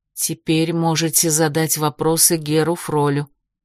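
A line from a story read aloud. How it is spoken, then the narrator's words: Barely audible. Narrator (Russian): Нада едва слышно произнесла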